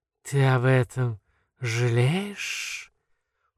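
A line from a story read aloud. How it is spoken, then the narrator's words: Strange, insinuating, anxious. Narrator (Russian): Вопрос звучит странно и вкрадчиво, и тревожно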